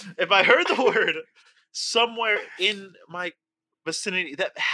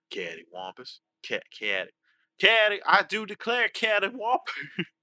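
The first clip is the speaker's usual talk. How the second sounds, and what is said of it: Put-on Southern American accent. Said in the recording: “This doesn't sound right in a southern accent.”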